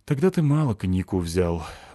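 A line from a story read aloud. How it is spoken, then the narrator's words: Sad confirmation. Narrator (Russian): грустно подтвердил Викентий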